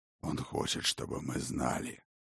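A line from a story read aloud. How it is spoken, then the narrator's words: Low dragon growl. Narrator (Russian): Глухо рыкнул дракон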